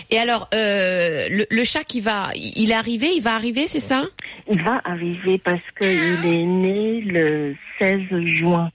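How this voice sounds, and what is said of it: Asian accent in French. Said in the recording (French): “ce délicieux accent que vous avez? ... je suis asiatique.”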